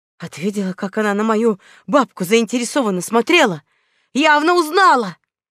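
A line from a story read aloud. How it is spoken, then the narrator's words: Hissing. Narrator (Russian): прошипел эльф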